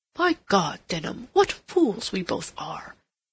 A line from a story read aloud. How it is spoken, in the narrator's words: Rodney exclaimed